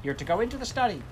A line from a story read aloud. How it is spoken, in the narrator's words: Jeanette said sharply